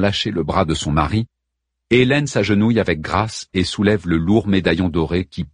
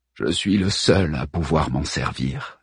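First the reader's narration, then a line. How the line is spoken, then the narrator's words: Low voice. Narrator (French): dit Hockenberry à voix basse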